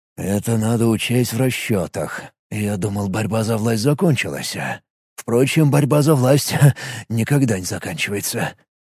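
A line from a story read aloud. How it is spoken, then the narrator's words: Muttering under breath. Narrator (Russian): продолжал бормотать себе под нос Юрт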